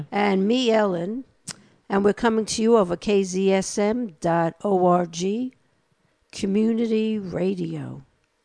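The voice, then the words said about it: New York accent. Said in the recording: “my accent is not Texan ... I only lost a little bit of my New York accent”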